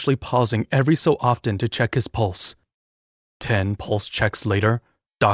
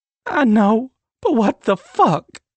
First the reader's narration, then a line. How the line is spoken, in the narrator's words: Sage sobbed